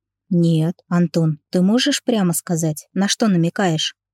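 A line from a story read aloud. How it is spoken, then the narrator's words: Female sighing. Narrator (Russian): вздохнула она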